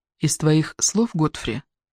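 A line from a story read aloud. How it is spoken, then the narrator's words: Low undertone. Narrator (Russian): прокомментировала Ирен вполголоса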